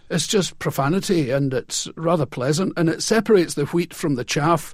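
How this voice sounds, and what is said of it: Scottish accent. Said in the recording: “What about you is Scottish? I mean, obviously, your accent, your speech”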